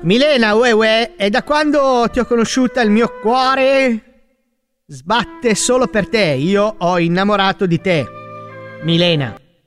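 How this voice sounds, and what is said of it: Exaggerated put-on Neapolitan accent. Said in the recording (Italian): “È il napoletano. ... Ma non fa uè uè il napoletano, mica il clacson.”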